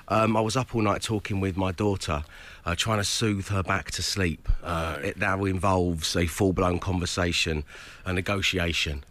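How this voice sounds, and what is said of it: Husky voice. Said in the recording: “my voice sounds a little husky today ... I think if your voice is quite husky”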